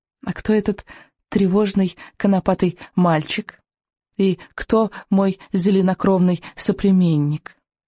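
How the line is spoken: Soft purr. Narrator (Russian): Мягко промурлыкала буремуха

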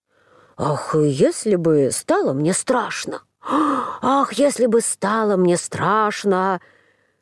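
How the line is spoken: Muttering to himself. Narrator (Russian): принялся снова про себя бормотать

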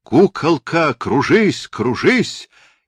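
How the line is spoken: Incessant terrible shouting. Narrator (Russian): Натанаэль неумолчно кричал страшным голосом

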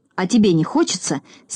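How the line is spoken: Angry grumble. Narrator (Russian): сердито проворчал Торопышка

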